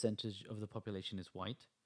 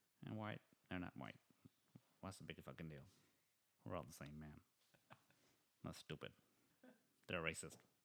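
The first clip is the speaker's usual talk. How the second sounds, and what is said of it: Mock generic American voice impression. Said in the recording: “That was my diversity aware impression of I don't know who ... generally people that I met in America”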